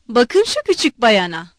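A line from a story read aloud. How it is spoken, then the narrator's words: Shouting. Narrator (Turkish): diye bağırdı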